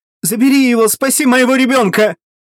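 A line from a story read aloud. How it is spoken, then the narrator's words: Desperate scream. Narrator (Russian): Несчастная истошно закричала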